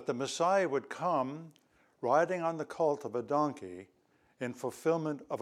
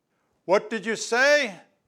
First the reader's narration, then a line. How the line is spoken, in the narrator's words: Philip asked in a loud voice